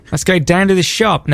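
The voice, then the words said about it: Attempted Australian accent. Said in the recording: “That's not bad. That's pretty good. ... That sounds like hoo-ha when he's trying to do an Australian accent.”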